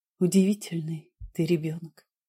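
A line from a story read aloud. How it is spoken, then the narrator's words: Whisper. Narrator (Russian): сказала я шепотом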